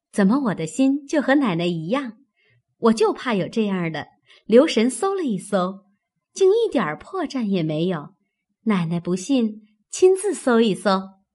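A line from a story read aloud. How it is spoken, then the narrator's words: Sly sneering laugh. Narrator (Chinese): 平儿阴笑道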